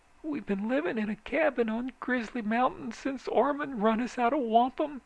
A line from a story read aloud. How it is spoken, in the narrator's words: she whimpered